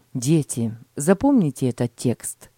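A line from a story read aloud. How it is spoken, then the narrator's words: Plain. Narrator (Russian): сказал отец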